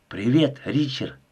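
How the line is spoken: Whisper. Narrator (Russian): прошептала она

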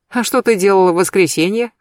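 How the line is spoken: Snorting. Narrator (Russian): хмыкнула Агатка

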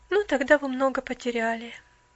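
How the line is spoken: Sad. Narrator (Russian): печально проговорила девушка

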